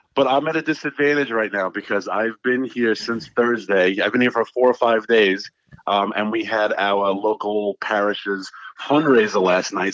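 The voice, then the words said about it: Strong Queens New York accent. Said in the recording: “my accent has been back strong ... my Queens is back in a vengeance”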